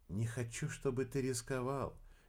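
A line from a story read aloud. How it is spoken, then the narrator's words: Quiet reply. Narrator (Russian): негромко ответила Кира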